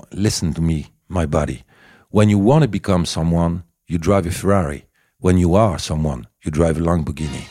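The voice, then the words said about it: Put-on American accent in English. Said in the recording (French): “l'anglais, l'accent américain”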